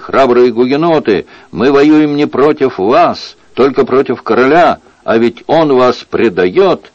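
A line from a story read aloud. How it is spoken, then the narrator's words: Several voices shouting. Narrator (Russian): Они закричали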